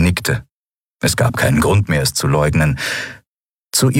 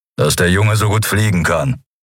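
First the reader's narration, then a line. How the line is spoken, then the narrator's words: Growled. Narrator (German): knurrte Kero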